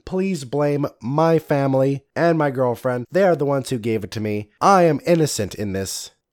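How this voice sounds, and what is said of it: Slightly weird, congested voice. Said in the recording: “I sound a little weird, it's because I have yet another cold”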